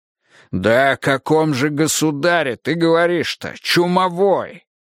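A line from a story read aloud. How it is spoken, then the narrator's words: Barking. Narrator (Russian): рявкнул Миха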